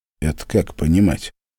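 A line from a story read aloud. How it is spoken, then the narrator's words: Cold question. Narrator (Russian): холодно спросил Глеб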